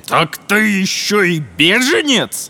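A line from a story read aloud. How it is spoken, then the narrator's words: Burly man's growl. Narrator (Russian): зарычал дюжий сотник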